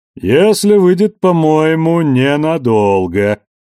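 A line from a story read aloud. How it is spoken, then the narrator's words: Booming voice. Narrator (Russian): прогудел голос за спиной Анны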